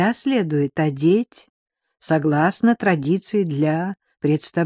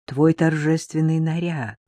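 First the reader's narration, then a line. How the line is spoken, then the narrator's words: Calm explanation. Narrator (Russian): спокойно объяснила первая красивая туземка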